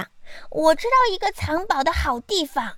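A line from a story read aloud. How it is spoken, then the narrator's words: Very loud shout. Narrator (Chinese): 我叫的比风声还响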